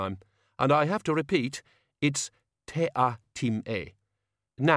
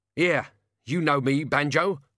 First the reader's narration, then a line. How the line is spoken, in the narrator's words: the locksmith croaked, struggling in midair